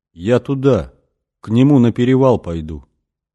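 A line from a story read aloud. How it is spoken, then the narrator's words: Detached, distant voice. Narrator (Russian): сказала она каким-то отрешенным голосом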